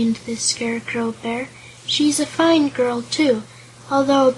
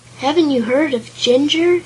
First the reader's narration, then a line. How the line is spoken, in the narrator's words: exclaimed the Scarecrow in surprise